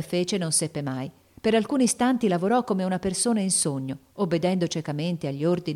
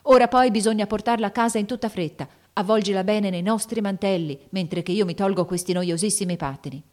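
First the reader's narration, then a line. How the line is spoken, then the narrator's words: Shouted. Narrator (Italian): gridò Lori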